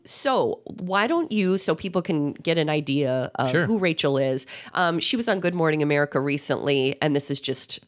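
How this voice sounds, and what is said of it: Congested, sick-sounding voice. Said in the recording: “I have a cold... Just not that you guys can't already tell, but I'm very aware I sound this way”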